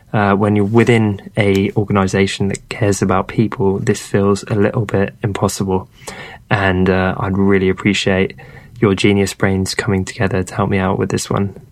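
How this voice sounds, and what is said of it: Soft-spoken British accent. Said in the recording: “soft-spoken British accent”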